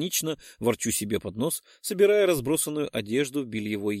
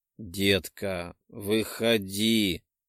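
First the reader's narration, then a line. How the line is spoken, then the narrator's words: Pleading drawl. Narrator (Russian): умоляюще протянул Артем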